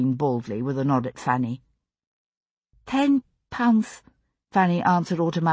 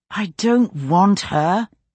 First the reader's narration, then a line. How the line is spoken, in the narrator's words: he said through his teeth